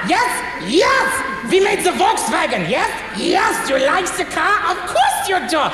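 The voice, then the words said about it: Put-on German accent. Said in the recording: “you go a little bit higher, little bit higher ... and you have yourself German ... the German accent”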